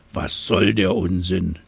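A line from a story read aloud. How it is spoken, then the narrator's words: Grunting. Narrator (German): grunzte das Nilpferd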